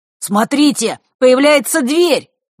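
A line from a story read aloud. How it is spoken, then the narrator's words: Excited shout. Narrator (Russian): возбужденно выкрикнул Мар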